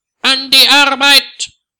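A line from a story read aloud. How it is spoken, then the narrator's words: Shouting at someone. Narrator (German): schreit Herr Ungewitter ihn an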